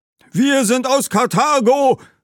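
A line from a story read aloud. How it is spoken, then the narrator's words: Group calling out. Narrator (German): rief eine Gruppe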